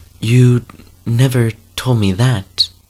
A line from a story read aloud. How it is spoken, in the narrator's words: she said